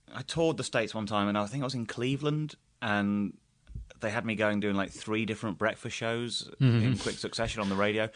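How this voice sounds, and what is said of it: British accent. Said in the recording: “that British accent ... Although I'm often mistaken for Australian”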